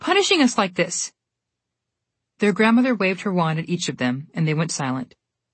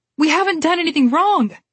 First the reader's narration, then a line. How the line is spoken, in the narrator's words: Alex shouted